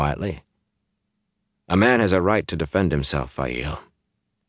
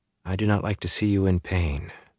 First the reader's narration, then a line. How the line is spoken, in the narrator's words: she said very softly